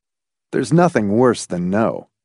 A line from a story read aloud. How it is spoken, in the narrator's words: he said, but even to his own ears, his voice lacked conviction